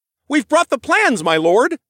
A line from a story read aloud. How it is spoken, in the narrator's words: exclaimed as he walked into the room